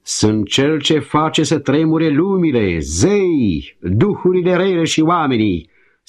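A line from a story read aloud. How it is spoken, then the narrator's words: Mighty demon shouting. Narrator (Romanian): striga atunci puternicul rakshasa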